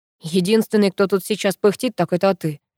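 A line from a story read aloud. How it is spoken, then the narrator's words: Smirking. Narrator (Russian): хмыкнул Пашка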